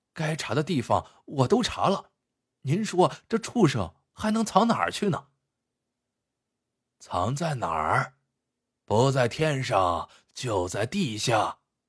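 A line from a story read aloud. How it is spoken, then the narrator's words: Embarrassed murmur. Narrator (Chinese): 秦老板有一些不好意思，喃喃的念道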